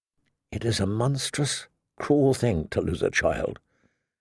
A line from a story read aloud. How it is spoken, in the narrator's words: she whispered softly, more to herself than to her father